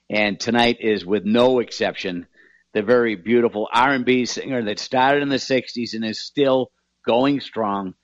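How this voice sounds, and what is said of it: Boston accent. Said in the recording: “I figured you could tell with my Boston accent.”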